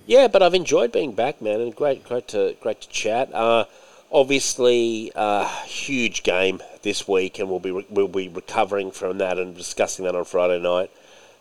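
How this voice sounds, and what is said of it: Strained, failing hoarse voice. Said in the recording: “My voice is basically just going.”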